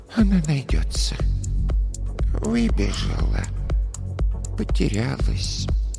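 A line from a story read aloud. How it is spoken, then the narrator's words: Soft soothing murmur. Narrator (Russian): тихо приговаривала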